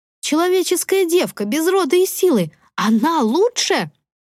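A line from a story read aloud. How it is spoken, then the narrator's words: Witch screaming. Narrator (Russian): завопила ведьма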